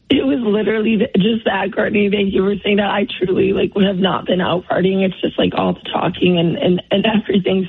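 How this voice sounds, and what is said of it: Hoarse, strained voice. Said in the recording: “I lost my voice ... Your voice sounds that way”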